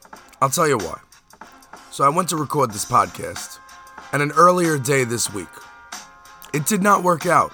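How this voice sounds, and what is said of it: Worn-out, strained voice. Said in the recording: “My voice is a little shot.”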